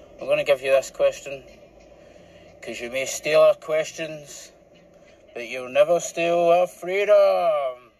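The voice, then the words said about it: Reluctant Braveheart Scottish accent. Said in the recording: “some accents. A nice wee Braveheart one ... That was the most reluctant Braveheart I've ever heard. Not, ah, freedom!”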